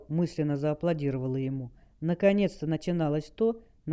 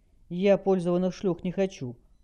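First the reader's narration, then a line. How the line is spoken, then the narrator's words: Cold remark. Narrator (Russian): холодно заметил глава Сокола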